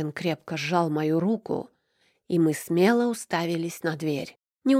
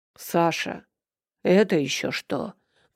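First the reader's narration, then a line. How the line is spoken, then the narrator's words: Deep bass voice. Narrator (Russian): пробасил Данил Никитич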